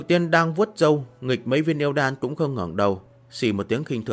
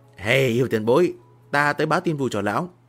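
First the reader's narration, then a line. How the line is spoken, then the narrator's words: Loud laughing speech. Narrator (Vietnamese): Miêu Nghị lập tức cười to nói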